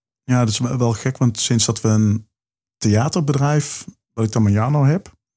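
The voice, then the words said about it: Limburg Dutch accent. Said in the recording (Dutch): “dat is mijn accent. dat is mijn uh, Limburgse accent.”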